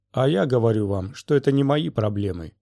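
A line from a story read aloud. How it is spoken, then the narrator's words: Indifferent tone. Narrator (Russian): сказала Она Нобис таким же равнодушным тоном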